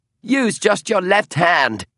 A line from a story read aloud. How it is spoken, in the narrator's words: Lucan said, just loud enough to be heard over the roar of noise below